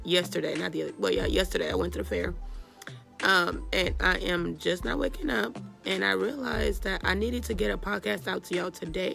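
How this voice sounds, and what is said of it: Hoarse, strained voice. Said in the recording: “I have lost my voice”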